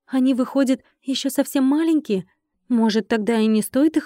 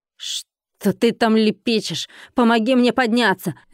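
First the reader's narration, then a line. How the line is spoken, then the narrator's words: Barked. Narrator (Russian): рявкнула владелица борделя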